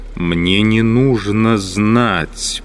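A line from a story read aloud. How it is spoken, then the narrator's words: Choked angry voice. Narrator (Russian): придушенным злым голосом отозвался Пилат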